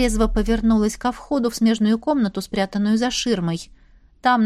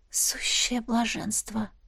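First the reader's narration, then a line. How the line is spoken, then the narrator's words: Soft breathy exhale. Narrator (Russian): выдохнула тихонько девушка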